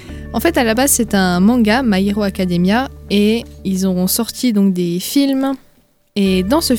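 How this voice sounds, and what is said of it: Usual voice. Nothing is said of it.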